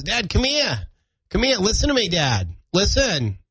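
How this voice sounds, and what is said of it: Half Boston, half Maine accent. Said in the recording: “That's a half Boston, half Maine hybrid accent ... I'll try to get him to pronounce the R. And he doesn't care about that R.”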